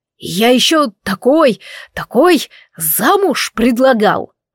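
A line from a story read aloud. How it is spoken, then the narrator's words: Exclamation with nervous laugh. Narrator (Russian): воскликнул Анро, выдавливая нервный смешок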